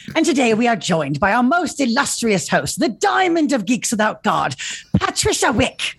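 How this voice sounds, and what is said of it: Poor put-on Regency-era English accent. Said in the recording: “my terrible Regency accent”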